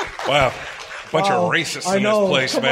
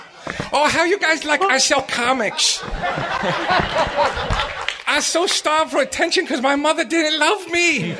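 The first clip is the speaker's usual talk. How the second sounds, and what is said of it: Impression of Ming's voice. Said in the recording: “the Ming voice”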